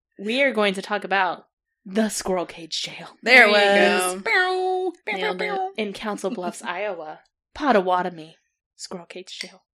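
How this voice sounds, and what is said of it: Ominous dramatic voice. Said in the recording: “in your ominous voice ... My ominous voice, or like my demon voice”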